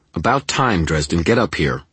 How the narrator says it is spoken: Her voice was hard, angry

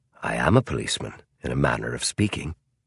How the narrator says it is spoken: Holmes said quietly

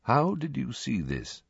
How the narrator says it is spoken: Dumbledore asked quietly

